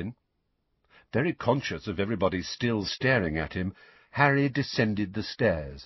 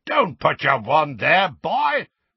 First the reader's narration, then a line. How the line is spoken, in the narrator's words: roared Moody